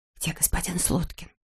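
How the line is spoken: Whispered question. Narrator (Russian): шепотом спросила она сестру

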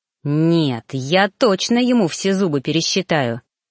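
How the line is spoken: Growling, losing self-control. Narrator (Russian): зарычал, пытаясь совладать с собой, но не получалось

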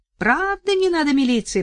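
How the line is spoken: Shouting milkmaid. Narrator (Russian): прокричала скотница

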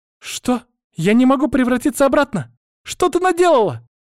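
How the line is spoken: Girl's angry shout. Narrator (Russian): Закричала девочка, гневно

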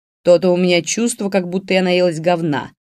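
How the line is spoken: Loud grumble. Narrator (Russian): достаточно громко пробурчала Фаина

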